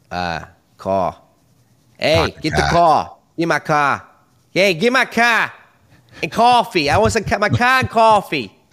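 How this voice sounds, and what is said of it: Exaggerated put-on Boston accent. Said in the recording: “The most confident accent is Boston. ... that was worse than what Corey was doing.”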